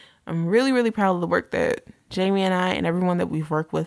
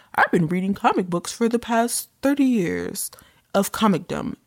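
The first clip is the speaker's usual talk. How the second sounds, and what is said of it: Imitates another person's voice. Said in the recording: “my really bad impression, but this is how I hear it when I read it”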